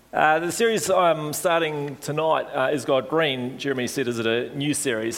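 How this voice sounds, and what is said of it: Hoarse, failing voice. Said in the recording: “I suddenly felt myself losing my voice as I sing”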